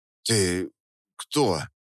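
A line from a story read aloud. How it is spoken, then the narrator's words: Hoarse, strained, distant. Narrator (Russian): Хрипло выдавил я, и мой собственный голос показался мне чужим и далеким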